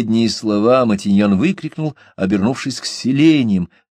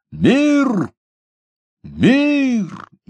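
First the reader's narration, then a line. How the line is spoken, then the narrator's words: Loud soldierly shout. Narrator (Russian): громко по-солдатски выкрикнул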